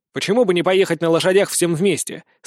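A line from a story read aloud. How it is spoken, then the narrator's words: Plain question. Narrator (Russian): спросил Стряпчий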